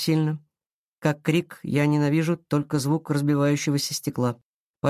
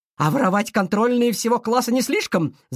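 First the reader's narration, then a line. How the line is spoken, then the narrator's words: Shouting. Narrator (Russian): закричала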